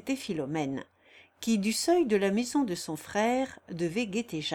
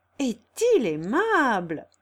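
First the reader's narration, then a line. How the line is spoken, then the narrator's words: Cheerful. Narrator (French): reprit gaiement Philomène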